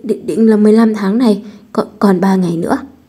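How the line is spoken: Fearful trembling answer. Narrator (Vietnamese): Người nọ cũng không dám giấu giếm, run rẩy trả lời

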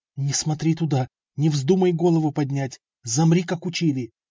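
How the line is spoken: Angry hiss. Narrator (Russian): мамка придавила его сильнее и зло прошипела

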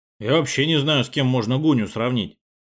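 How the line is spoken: Muttering. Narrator (Russian): пробормотал наш второй вратарь Сашка Кочетуров

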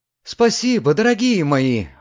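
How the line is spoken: Exclaimed. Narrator (Russian): воскликнула Лидия

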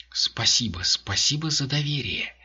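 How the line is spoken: Whisper. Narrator (Russian): прошептала она

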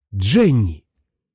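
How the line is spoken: Exclaimed. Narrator (Russian): воскликнул Бентон

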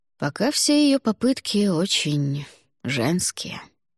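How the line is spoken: Soft reply. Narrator (Russian): мягко ответил он

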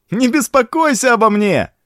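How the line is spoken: Cheerful shout. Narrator (Russian): Весело крикнул

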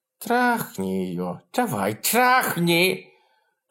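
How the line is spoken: Girl's lisping voice. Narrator (Russian): девчонка произнесла, шепелявя

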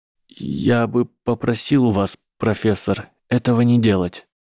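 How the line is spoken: Strained, forced out. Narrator (Russian): сумел выдавить Гарри

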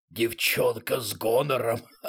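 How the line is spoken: Hoarse woman. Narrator (Russian): сипло произнесла она

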